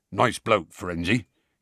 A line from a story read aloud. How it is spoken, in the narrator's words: he said gruffly